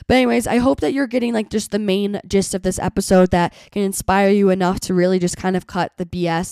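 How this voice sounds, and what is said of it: Hoarse, sick-sounding voice. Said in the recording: “my voice is getting hoarse because I'm talking a little bit too long for my little sick voice box”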